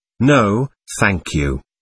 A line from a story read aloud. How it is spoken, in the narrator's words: he replied